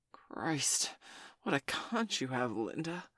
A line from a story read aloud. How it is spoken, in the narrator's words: Frank gasped